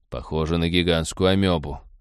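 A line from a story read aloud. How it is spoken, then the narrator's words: Disappointed sigh. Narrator (Russian): разочарованно вздохнул Роджер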